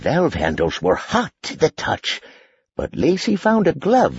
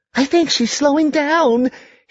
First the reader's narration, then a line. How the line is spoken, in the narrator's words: she burst happily